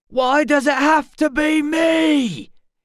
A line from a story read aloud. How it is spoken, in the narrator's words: He shouted